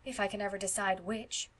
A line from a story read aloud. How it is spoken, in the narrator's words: sighed Phil